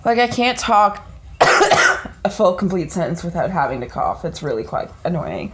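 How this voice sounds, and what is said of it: Raspy, coughing voice. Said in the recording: “I sound so horrible today. ... I'm very raspy and coughy.”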